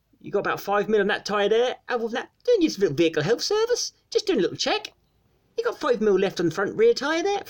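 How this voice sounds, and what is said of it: Norfolk woman's accent imitated. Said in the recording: “a proper Norfolk accent, this woman going”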